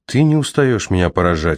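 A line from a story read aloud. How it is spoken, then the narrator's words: Sigh. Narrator (Russian): вздохнул Аарон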